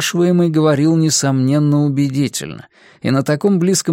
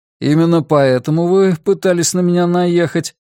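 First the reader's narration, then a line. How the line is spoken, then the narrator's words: Laughing man. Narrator (Russian): Мужчина засмеялся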